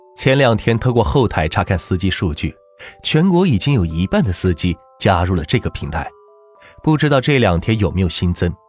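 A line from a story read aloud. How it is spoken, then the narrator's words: Smiling. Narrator (Chinese): 万钱笑着说道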